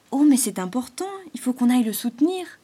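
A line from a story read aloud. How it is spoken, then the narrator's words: Excited exclamation. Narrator (French): s'exclama Arthur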